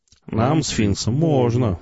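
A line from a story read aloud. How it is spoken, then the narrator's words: Purring reply. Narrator (Russian): не прекращая мурлыкать, ответил Шидло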